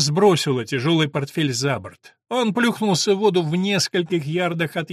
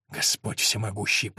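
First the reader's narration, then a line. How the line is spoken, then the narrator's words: Mutter. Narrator (Russian): пробормотал Вульф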